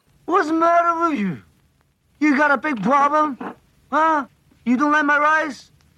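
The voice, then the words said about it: Robert De Niro-style tough-guy voice. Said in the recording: “Him doing kind of a Robert De Niro-esque ... Yes, De Niro-esque.”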